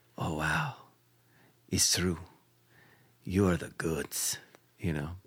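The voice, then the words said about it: Deep put-on voice for a woman. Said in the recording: “I love giving her a deep voice.”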